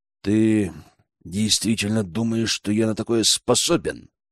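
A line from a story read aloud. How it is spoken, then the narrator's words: Growled, emperor. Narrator (Russian): рыкнул император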